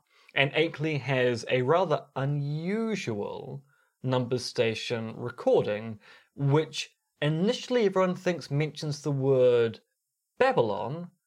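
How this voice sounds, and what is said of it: New Zealand accent. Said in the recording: “in a Kiwi accent”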